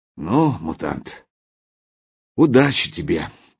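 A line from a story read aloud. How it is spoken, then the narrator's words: Sigh. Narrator (Russian): вздохнул он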